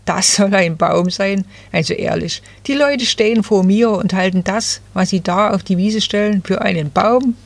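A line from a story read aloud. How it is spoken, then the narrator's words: Little fir rustling laughter. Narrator (German): rauschte das Nadelbäumchen lachend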